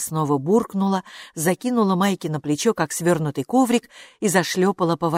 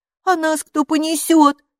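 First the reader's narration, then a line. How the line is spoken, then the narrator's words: Angry shout. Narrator (Russian): сердито крикнула Хилла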